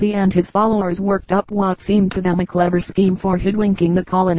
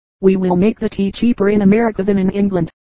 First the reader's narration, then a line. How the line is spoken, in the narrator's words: they said